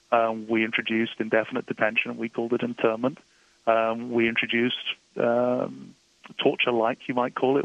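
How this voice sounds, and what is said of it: British accent. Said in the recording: “as you can tell from my accent, I'm originally from the United Kingdom”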